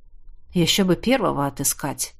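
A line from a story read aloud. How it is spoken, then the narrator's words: Low-voiced remark. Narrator (Russian): вполголоса заметил Тизар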